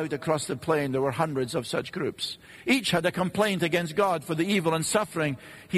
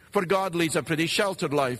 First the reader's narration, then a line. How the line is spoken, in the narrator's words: they said